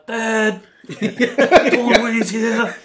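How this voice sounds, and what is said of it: Put-on urban Maori accent. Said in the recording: “urban Maori accent”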